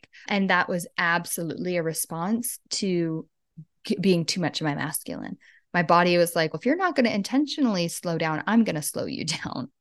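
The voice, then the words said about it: Voice sounds sick. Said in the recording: “You can hear in my voice, I'm still sick.”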